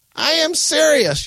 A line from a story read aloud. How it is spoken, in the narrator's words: yelled Grandma